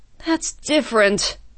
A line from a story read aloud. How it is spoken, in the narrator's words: Stuart sighed